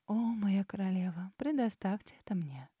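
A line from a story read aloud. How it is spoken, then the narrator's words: Sudden purr. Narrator (Russian): мурлыкнула вдруг Ауриния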